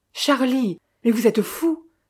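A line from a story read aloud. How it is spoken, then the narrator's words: Exclaiming. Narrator (French): s'écria Victor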